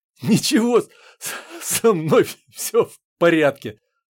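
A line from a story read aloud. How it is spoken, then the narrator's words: Tearful mumble, suppressed laughter. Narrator (Russian): пробормотала она, стряхивая набежавшие на глаза слезы и стараясь не особенно разжимать челюсти, чтобы не рассмеяться вновь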